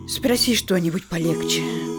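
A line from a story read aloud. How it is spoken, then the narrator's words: Tired wife muttering. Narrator (Russian): пробормотала уставшая супруга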